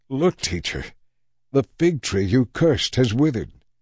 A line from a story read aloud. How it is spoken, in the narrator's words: Peter exclaimed